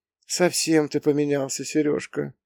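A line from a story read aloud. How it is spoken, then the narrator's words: Sad sigh. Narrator (Russian): грустно вздохнула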